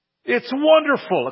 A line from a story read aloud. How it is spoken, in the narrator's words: exclaimed the friend